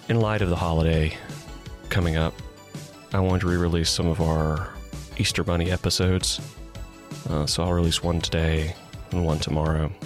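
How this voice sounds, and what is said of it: Hoarse, froggy voice. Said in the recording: “as you can hear, I have a little bit of a frog in my throat”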